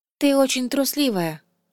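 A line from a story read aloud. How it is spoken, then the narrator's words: Dull, muffled voice. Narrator (Russian): глухо сказала она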